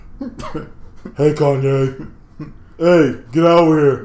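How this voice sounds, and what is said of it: Put-on deep voice. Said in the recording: “deep voice”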